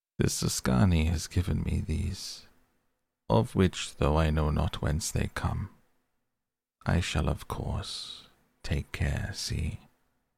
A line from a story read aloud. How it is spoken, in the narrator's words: said in his smoothest voice